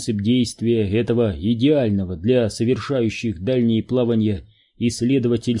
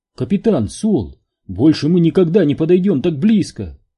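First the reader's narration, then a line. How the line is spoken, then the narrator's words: Exclaimed. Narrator (Russian): воскликнула Нелл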